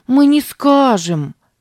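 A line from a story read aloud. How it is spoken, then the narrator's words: Exclaimed. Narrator (Russian): воскликнула Сара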